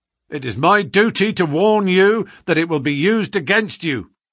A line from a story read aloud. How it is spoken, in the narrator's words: cried the inspector with the magnificent fair play of the British criminal law